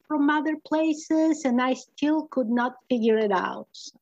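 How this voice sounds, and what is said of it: Speaks English with a foreign accent. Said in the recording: “everybody liked my accent ... don't lose this accent ... I'm keeping the accent”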